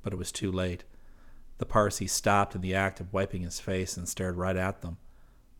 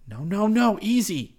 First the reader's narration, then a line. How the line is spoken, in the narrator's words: Rick pleaded